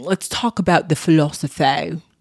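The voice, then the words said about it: Odd put-on accent. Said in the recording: “I don't know what accent that was. What the hell was that?”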